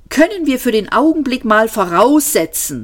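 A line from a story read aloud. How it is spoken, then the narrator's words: Called out. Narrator (German): rief Ford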